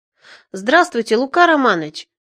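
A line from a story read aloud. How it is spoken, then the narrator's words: Exclaimed. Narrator (Russian): воскликнул я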